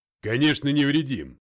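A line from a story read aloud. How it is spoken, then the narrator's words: Snapping. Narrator (Russian): огрызнулся Макгрей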